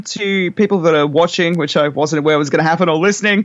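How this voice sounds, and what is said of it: Strong regional accent. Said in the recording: “my ridiculous accent”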